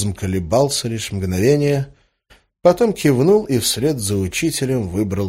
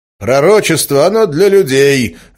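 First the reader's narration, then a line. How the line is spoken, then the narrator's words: Teacher barking. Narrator (Russian): рявкнул учитель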